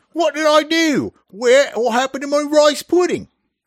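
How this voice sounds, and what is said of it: Fake British accent. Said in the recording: “I can hear a European. ... British ... That impersonation was about as good as this game. ... it's a fake accent”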